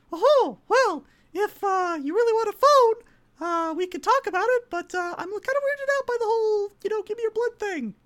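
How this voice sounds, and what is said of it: Pixie fairy character voice. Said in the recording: “gonna do a voice I've never done on stream before, and I apologize in advance if it's horrible, but hey, it's a pixie ... the voice, the pixie fairy, says”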